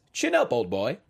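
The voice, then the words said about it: Put-on British accent. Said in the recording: “I'm just going to read it in a British accent.”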